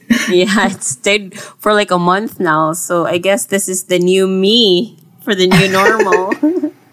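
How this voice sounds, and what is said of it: Stuffy, congested voice. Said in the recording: “as you can hear, probably hear in my voice ... Pretty stuffy voice.”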